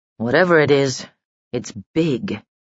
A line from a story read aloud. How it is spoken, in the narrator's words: muttered Doran